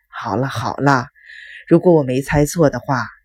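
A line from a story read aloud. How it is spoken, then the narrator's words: Adoptive father, long sigh. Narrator (Chinese): 养父长长的叹了一口气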